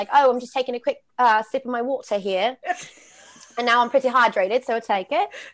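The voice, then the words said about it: Put-on British accent. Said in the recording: “I talk to myself pretty regularly, but it's always in a British accent now”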